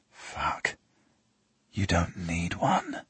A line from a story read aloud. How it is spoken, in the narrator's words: I whisper